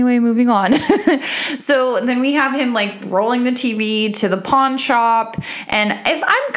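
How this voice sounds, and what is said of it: Usual voice. Nothing is said of it.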